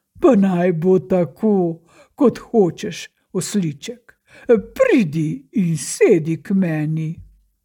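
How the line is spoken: Good-humoured laughing king. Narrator (Slovenian): Kralj se je smejal in je dobre volje rekel

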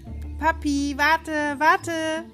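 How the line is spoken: Repeated calling out. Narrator (German): rief sie immer wieder

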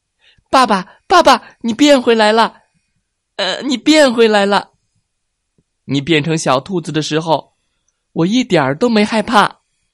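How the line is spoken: Loud shouting. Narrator (Chinese): 卡卡大声的叫着

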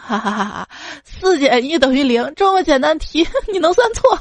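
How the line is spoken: Mocking laughter. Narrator (Chinese): 唐僧、八戒、沙僧就嘲笑道

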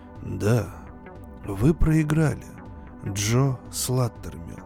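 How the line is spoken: Calm. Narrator (Russian): продолжал спокойно

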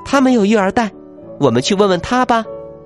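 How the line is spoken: Crying out. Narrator (Chinese): 凯蒂叫了起来

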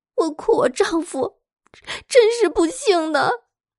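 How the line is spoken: Weeping woman. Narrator (Chinese): 女子边哭边回答说

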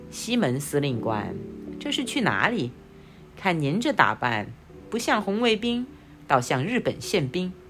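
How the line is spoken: Grinning cheerfully. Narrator (Chinese): 杨七笑嘻嘻地说

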